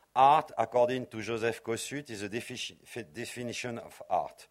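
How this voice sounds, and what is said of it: Strong non-native English accent. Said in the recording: “sorry for my accent, very horrible accent”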